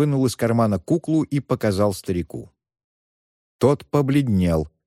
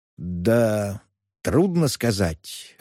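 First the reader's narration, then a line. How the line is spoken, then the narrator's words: Confused old man mumbling. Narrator (Russian): растерянно пробормотал старик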